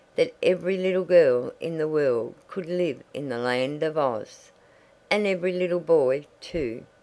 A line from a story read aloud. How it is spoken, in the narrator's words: continued Betsy, dreamily